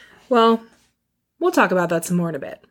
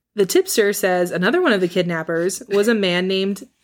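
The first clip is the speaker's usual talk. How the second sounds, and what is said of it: Newscaster-style reading voice. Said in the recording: “My newscaster voice?”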